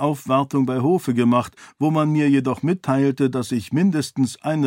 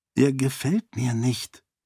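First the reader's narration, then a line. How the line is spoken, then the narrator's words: Low murmur. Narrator (German): raunte Sarene Arche zu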